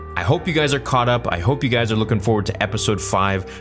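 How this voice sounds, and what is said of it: Excited, energetic voice. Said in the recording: “I am extremely excited. You can probably tell by my voice and by my energy. ... I couldn't be more stoked.”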